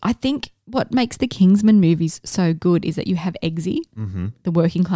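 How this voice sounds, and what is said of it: Usual voice. Nothing is said of it.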